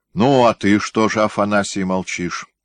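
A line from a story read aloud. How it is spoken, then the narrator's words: Stern question, tsar. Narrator (Russian): строго спросил царь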